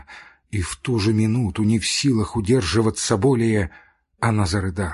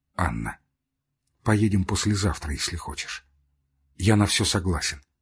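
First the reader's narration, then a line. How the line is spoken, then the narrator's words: Quiet. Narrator (Russian): тихо сказал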